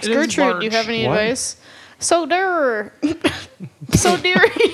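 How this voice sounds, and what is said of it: Put-on Canadian accent, not convincing. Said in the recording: “I've lost the accent. ... Gertrude's from Canada. You need to work on that.”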